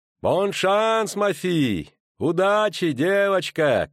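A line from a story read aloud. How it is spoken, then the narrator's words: Innkeeper shouting after someone. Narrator (Russian): крикнула ей вслед Тереза Лепен, трактирщица из постоялого двора Ошануар у черной кошки, в Понсюржон у тракта, ведущего из Милуна в Аксер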